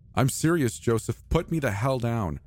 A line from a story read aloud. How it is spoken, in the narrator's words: I yelled